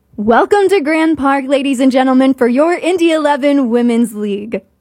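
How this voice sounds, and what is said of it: PA announcer voice. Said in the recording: “I want to hear your announcer voice. ... Hear my announcer voice.”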